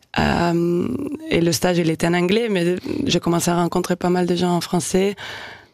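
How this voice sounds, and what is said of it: Non-native accent in French. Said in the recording (French): “l'accent, il part pas. Hein. Là, je m'entends un peu plus que d'habitude. ... j'entends plus l'accent que d'habitude.”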